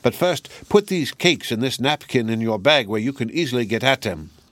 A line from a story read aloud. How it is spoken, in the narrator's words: cried the old woman